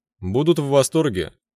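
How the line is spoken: Snort. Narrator (Russian): хмыкнул я

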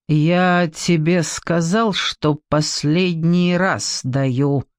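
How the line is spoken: Lazy drawl through teeth. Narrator (Russian): лениво растягивая слова, процедил Маратов собеседник

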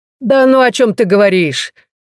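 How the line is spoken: Cheerful reply. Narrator (Russian): весело отзывается Гентара

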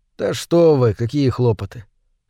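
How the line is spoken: Calm objection. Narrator (Russian): спокойно возразил Мур

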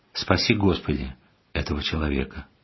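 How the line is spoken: Calm prayerful. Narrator (Russian): спокойно с молитвой сказал

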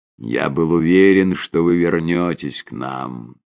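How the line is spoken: Whisper. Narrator (Russian): прошептал он

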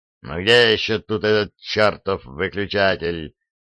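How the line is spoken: Growling. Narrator (Russian): прорычал Фрезби

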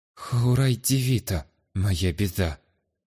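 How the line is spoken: Dejected voice. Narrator (Russian): упавшим голосом сообщила женщина

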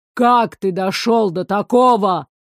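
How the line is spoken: Angry bark. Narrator (Russian): рявкнул разозленный огонь

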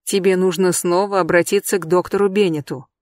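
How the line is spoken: Soft. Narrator (Russian): мягко сказал он

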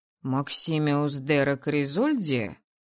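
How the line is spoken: Thoughtful drawl, father. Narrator (Russian): Задумчиво пожевывая губу, протянул отец

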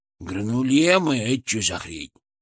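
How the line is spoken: Grumbling. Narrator (Russian): проворчал он

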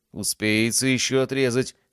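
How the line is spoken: Slightly rude. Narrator (Russian): немного грубо ответил

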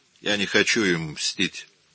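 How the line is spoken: Weary dismissal. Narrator (Russian): устало отмахнулся Бернардино

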